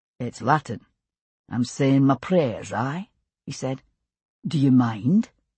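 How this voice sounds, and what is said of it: Scottish accent character voice. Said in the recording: “addressed in a Scottish accent”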